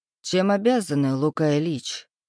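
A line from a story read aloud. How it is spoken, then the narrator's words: Calm and composed. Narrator (Russian): произнес спокойно и невозмутимо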